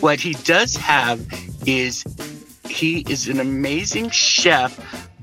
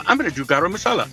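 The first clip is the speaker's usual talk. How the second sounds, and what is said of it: Mock Indian accent. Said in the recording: “someone will be from India and come on and go ... that was probably racist that I just did that like accent”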